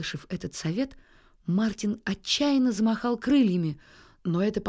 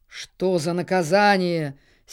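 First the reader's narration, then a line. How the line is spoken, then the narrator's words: Angry reply. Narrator (Russian): сердито откликнулась Акка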